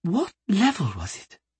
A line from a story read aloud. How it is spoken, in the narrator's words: She asked quietly